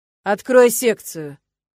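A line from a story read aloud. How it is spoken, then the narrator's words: Commanding tone. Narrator (Russian): проговорил Ленард повелительным тоном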